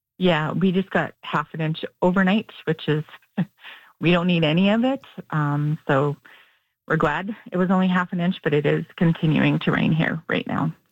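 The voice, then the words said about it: Emotional voice. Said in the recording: “I hear the emotion in your voice.”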